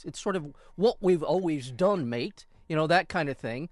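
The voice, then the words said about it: Weak put-on Australian-sounding accent. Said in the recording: “That was more Australian. ... My accent, I really have to work on my accents.”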